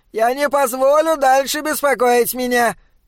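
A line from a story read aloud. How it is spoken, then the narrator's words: Shouting. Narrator (Russian): крикнул он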